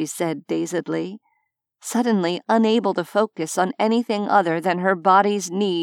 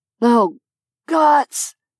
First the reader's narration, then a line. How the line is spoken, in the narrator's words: Ithric groaned hoarsely